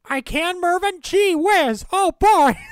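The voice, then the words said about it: Imitates another person's voice. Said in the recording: “that's not a bad Kenny impersonation.”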